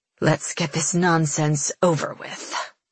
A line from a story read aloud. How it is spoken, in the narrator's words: she snarls under her breath